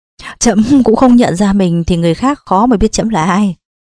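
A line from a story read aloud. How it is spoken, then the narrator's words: Laughing. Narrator (Vietnamese): Nhà vua ông bật cười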